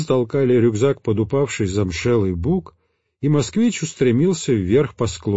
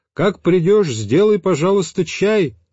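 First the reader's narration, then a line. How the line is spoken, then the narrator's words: Shouted after someone. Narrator (Russian): крикнул я ему вдогонку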